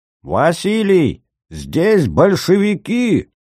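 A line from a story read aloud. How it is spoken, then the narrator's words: Strained desperate shout. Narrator (Russian): надрывно закричал Силантий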